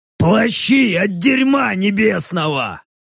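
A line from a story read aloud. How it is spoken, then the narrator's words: Orc's bass voice. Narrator (Russian): ответил баску орк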